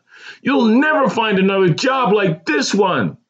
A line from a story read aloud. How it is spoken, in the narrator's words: she screamed